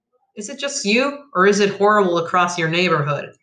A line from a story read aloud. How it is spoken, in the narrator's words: I asked